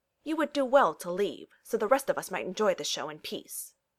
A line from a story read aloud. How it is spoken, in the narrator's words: Washington chimes in, his voice chilly